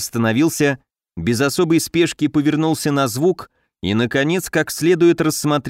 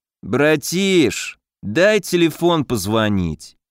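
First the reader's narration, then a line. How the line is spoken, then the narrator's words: Lazy drawl. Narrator (Russian): лениво протянул тот, что шагал по центру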